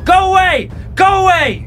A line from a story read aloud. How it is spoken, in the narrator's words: Roxana screamed